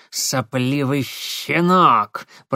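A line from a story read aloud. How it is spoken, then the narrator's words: Hissing. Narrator (Russian): прошипел он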